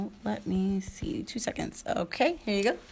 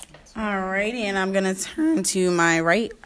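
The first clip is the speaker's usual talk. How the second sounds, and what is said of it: Voice cracks mid-sentence. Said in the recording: “I don't know why my voice cracked like that”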